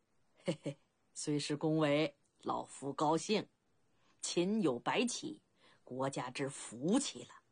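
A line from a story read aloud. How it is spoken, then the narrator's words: Laughing. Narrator (Chinese): 处理吉笑道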